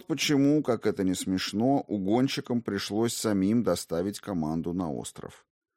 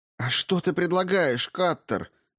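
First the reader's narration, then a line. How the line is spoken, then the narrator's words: Shouted reply. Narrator (Russian): закричала в ответ Игона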